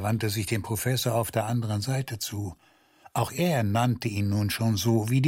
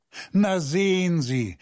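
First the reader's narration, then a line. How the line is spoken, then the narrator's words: Laughing. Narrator (German): Er lachte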